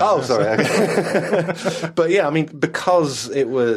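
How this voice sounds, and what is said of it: Usual voice. Nothing is said of it.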